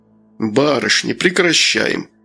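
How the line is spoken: Menacing. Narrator (Russian): грозно сказал он

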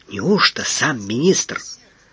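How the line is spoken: Lowered to a whisper. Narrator (Russian): понизив голос до шепота

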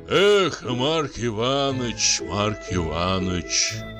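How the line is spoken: Sighing. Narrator (Russian): вздохнул Становой

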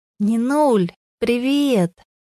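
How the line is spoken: Hushed call from above. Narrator (Russian): Как можно тише, стараясь не шуметь, крикнула сверху Вера

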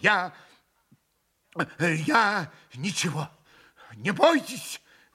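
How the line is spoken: Exclaimed. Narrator (Russian): воскликнул он

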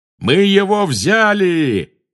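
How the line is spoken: Yelling death eater. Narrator (Russian): завопил пожиратель смерти

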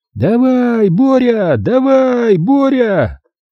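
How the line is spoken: Small crowd yelling wildly. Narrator (Russian): Безумно орала немногочисленная горстка счастливчиков, и в их числе был я

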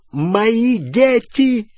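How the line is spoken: Shouting. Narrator (Russian): закричал

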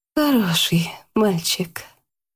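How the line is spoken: Quiet, eerie smiling voice. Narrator (Russian): улыбнулась Яна жуткой кровавой улыбкой и тихо добавила

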